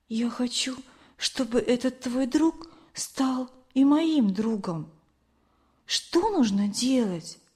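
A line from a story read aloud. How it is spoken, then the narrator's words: Soft whisper. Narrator (Russian): она тихо прошептала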